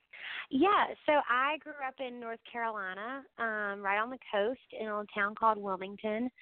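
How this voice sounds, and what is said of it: Southern US accent. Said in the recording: “I detect a southern accent”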